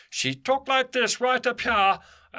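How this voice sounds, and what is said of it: Very high-pitched, thick throaty voice. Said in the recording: “very high-pitched and very thick in her throat voice. That was actually a really good imitation of her.”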